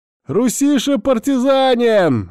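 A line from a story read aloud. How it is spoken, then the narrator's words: Shouting. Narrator (Russian): я закричу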